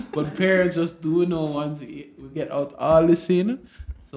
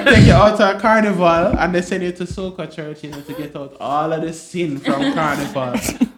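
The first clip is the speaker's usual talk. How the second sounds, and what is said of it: Put-on Trinidadian accent. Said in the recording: “This is medium Trinidad accent.”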